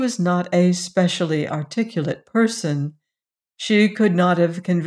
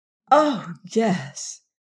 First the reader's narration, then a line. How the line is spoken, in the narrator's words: sighed Emily